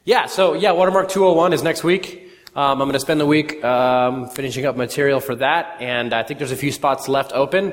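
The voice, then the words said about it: Hoarse voice from sore throat. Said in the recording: “I got a throat thing going on. ... My wife tells me it's my sexy voice.”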